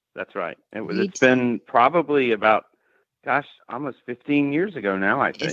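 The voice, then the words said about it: Southern US Alabama accent. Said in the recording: “It's good to hear that Tennessee accent. ... Or is it Alabama? ... It's Alabama.”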